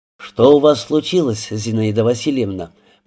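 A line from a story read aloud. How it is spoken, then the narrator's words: Almost gentle question. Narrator (Russian): Почти ласково спросил Рябинин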